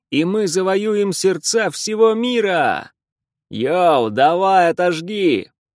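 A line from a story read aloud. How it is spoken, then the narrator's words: Showman-style shout. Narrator (Russian): Лана закричала, как заправский шоумен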